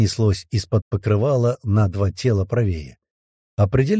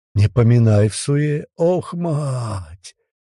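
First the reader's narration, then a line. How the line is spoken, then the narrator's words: Grunting, groaning voice. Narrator (Russian): прокряхтел, простонал ровно такой же голос слева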